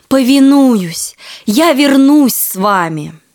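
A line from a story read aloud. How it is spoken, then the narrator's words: Joyful exclamation. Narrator (Russian): рыбак обрадовался, услышав эти слова, и воскликнул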